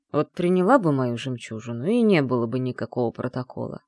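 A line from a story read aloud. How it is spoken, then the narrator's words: Grumbling. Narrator (Russian): проворчал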